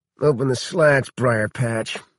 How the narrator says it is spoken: Hardy mumbled

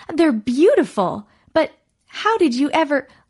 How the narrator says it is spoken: cried

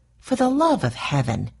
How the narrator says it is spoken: exclaimed Mercy

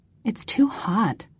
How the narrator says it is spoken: I muttered

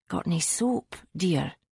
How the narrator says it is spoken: she muttered to the assistant

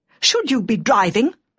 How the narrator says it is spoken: she said furiously, struggling to her feet

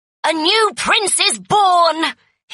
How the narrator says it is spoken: cried

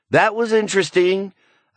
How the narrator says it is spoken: Amanda yelled up from below

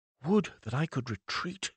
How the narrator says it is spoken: he whispered

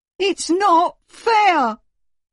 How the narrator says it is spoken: howled Horrid Henry

